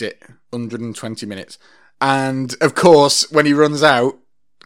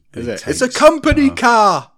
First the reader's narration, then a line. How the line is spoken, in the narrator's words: the guy shouts